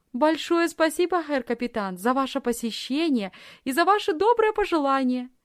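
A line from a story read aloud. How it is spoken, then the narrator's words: Exclaiming. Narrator (Russian): воскликнула Лисхин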